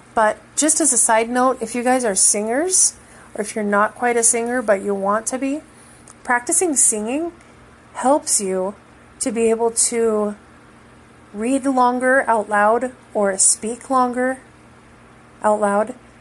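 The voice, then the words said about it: Tired, lowering voice, starting to go. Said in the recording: “my voice is kind of getting lower now because I'm going to start losing my voice”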